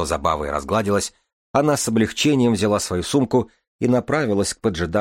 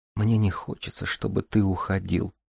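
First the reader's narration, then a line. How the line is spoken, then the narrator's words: Woman whispering. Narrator (Russian): прошептала женщина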